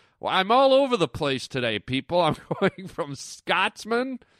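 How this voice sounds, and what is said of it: Usual voice. Nothing is said of it.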